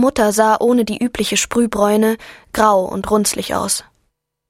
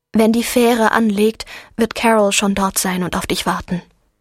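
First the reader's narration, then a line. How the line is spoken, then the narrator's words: Calm. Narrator (German): sagte sie ruhig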